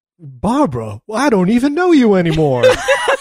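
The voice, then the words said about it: Impression of a movie character. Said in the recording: “That was a perfect impression.”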